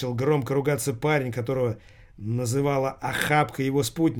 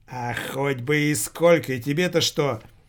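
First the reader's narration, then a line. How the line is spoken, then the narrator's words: Loud bickering. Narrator (Russian): Начал громко переругиваться с ней охапка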